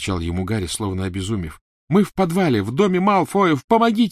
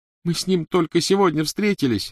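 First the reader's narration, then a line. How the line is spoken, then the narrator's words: Sobbing. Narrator (Russian): рыдала Гермиона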